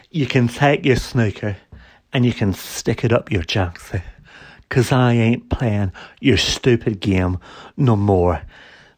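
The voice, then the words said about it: Imitates another person's voice. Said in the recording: “he's done a little impression, a good impression ... my Alex Higgins impression”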